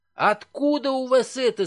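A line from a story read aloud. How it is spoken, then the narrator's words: Shriek. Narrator (Russian): завизжал он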